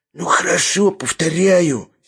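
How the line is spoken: Hoarse, stunned. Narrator (Russian): сиплым голосом ответил совершенно пораженный Шариков

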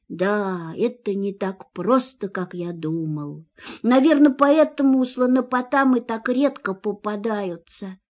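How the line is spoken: Sad. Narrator (Russian): грустно добавил

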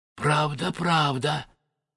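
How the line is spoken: Tearful whisper, king. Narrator (Russian): шептал царь Горох, обливаясь слезами

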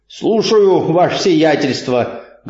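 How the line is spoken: Joyful bark, watchman. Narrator (Russian): гаркнул радостно сторож

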